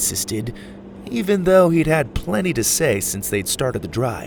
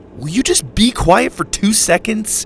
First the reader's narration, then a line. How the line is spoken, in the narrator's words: Dillon snapped